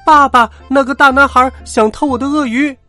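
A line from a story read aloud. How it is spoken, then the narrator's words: Loud shout. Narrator (Chinese): 他立刻大叫起来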